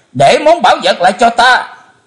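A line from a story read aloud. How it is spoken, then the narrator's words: Terrified loud scream. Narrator (Vietnamese): Chí Tôn hết nỗi kinh hoàng thét lớn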